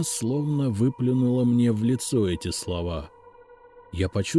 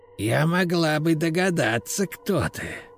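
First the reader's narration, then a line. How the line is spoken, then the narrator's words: Hissing. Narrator (Russian): прошипела она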